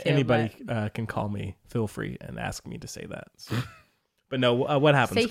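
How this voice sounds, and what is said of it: Southern American accent. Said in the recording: “It's your southern accent.”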